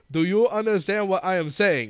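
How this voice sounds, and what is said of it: Exaggerated Japanese-accented English. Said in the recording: “speaks in English ... Like really poorly. I can't even do it as poorly as this dude does it ... with that accent”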